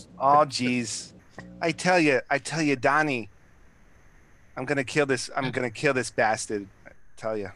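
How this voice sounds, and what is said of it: Put-on regional accent, slipping. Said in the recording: “I'm starting to biff the accent now”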